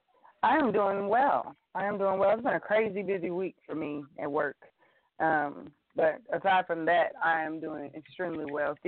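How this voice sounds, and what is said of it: Hoarse voice. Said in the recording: “I'm hoarse from laughing and talking all weekend ... you come back hoarse”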